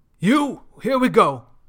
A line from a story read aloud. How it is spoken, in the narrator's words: Mason yells